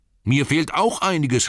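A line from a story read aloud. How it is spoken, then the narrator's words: Called out. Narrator (German): rief Bilbo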